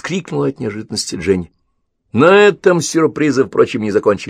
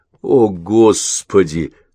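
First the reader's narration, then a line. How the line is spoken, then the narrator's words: Hoarse. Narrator (Russian): хрипло промолвил Мэтт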